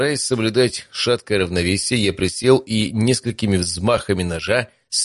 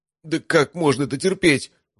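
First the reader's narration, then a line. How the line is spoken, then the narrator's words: Forced out through gritted teeth. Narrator (Russian): выдавил из себя мой напарник, скрежеча зубами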